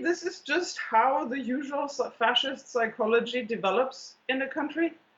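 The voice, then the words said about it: German accent. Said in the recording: “you might notice my German accent.”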